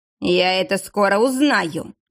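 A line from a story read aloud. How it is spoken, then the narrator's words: Menacing. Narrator (Russian): грозно проговорил Влад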